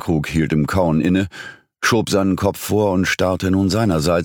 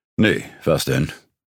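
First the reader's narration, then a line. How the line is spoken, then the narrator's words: Growl. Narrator (German): knurrte er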